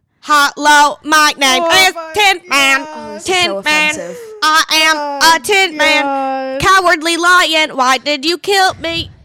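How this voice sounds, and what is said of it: Robotic Tin Man voice. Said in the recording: “I can do a Tin Man voice ... I can do a robot voice”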